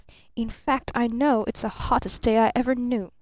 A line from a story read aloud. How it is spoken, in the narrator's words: hissed Barton through clenched teeth